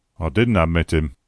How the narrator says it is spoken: grumbled the old man

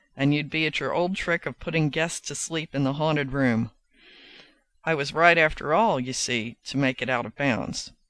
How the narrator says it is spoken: he added in a graver tone

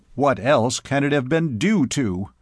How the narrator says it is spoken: exclaimed Jennings contemptuously

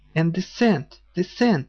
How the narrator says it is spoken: he cried

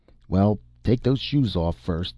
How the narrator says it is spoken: the woman grumbled

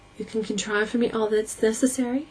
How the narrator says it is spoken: She asked breathlessly

